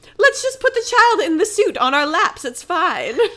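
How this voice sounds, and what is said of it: Put-on unidentified accent. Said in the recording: “I don't know what the accent that I'm doing”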